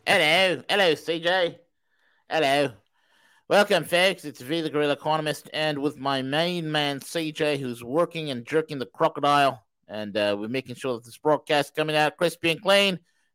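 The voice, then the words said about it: Put-on Australian accent. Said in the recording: “It's Australian V this morning from the Downland down under”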